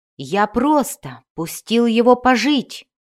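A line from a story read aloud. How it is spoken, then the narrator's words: Shouted lie. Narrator (Russian): кричал Кассиус, хотя это было неправдой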